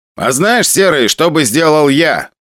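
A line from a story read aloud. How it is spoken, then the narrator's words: Loud speech. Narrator (Russian): громко сказал Валера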